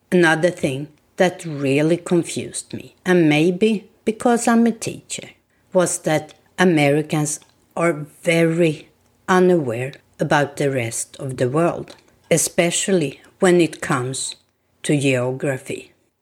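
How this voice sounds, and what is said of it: Swedish accent in English. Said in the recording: “I hear you have an accent. Where are you from? I am from Sweden.”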